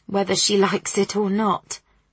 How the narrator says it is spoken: her mum muttered

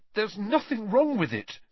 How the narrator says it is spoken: said Harry, his voice shaking slightly

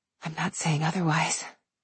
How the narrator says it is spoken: I whispered

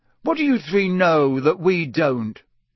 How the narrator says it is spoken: said Ron irritably

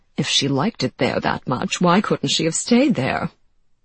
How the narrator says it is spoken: muttered the matchmaking mamas, thwarted in their ambitions for their daughters

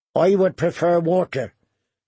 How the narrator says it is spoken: said Brian

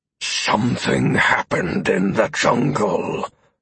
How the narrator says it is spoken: Amaranth hissed, his fur standing on edge

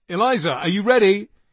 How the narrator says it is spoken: he shouted up the stairs

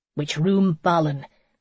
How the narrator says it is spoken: Conan grunted

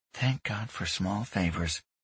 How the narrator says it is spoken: Grayson muttered

